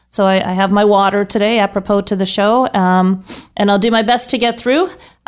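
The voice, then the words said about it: Hoarse, strained voice. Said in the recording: “I'm at the tail end of some laryngitis.”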